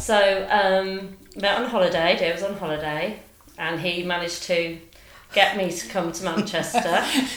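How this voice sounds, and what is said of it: Cornish English accent. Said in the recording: “I'm not from Manchester, I'm from Cornwall. ... I recognise that accent. It's lovely”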